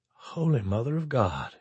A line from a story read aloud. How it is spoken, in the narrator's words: he whispered